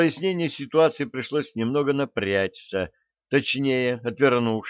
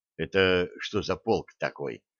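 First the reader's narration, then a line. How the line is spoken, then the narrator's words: Quiet question. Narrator (Russian): негромко спросил Зельц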